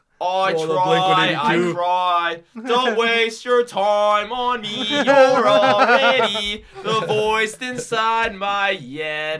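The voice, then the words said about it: Sung pop punk accent. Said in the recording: “Whatever happened to that accent? ... pop punk accent. ... Fucking British people. ... he's fucking not British. Like, why are you singing like that”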